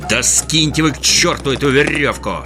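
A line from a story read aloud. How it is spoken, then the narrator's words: Fierce growl. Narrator (Russian): свирепо прорычал Мумитроль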